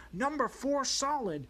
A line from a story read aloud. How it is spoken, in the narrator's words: a roar